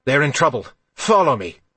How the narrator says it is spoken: Regnus shouted

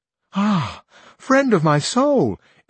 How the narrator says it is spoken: instantly exclaimed the other shepherdess

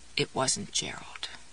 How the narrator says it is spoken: croaked

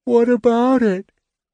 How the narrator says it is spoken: Tass yawned

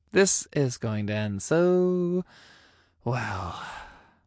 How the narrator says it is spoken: I sighed

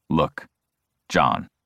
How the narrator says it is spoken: he speaks in a measured tone

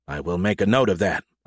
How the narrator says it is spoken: I said gravely

